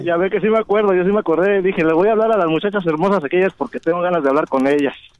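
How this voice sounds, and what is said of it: Mexican Spanish accent. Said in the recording (Spanish): “a mí ese acento me encanta. ... Viva México.”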